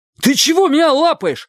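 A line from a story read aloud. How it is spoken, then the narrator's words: Terrified shout. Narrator (Russian): в ужасе крикнул Чик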